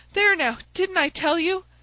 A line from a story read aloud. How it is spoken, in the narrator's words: cried the poor little man